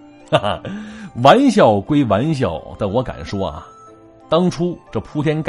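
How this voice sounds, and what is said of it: Usual voice. Nothing is said of it.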